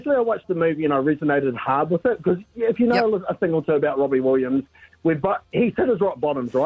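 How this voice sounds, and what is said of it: Usual voice. Nothing is said of it.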